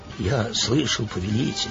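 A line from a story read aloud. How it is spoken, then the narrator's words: Trembling voice. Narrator (Russian): дрожащим голосом сказал Верес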